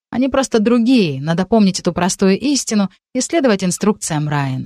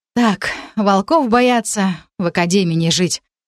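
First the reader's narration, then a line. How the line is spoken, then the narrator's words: Militant snort. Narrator (Russian): хмыкнула я воинственно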